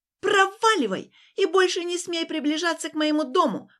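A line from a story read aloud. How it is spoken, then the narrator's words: Shout. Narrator (Russian): прокричала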